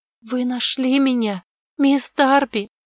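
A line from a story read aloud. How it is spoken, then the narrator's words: Hoarse female voice. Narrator (Russian): прохрипела она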